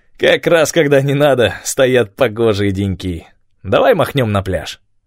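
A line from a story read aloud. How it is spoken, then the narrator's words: Laughing. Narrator (Russian): он рассмеялся и сказал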